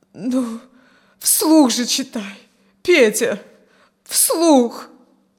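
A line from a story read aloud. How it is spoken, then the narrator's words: Moaning. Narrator (Russian): поскольку он не произносил ни слова, простонала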